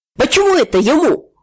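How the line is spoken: Shout. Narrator (Russian): выкрикнул Рытов

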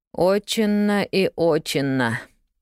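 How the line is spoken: Quiet drawl. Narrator (Russian): негромко протянул Джимми

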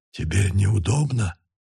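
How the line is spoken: Whispered. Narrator (Russian): прошептал он

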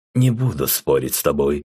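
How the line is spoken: Calm agreement. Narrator (Russian): спокойно согласился Рэм

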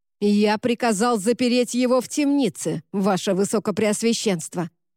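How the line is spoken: Barked. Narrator (Russian): рявкнул Люк

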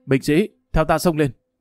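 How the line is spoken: Loud command. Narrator (Vietnamese): Hồ Bất Quy lớn tiếng nói

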